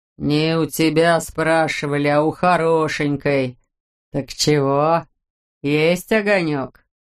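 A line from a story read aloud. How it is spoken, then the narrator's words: Muffled low reply. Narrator (Russian): глухо ответил рубила-дебила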